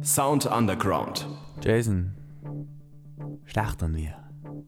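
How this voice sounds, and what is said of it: Speaks with a put-on accent. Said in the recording (German): “warum sagst du das mit Akzent?”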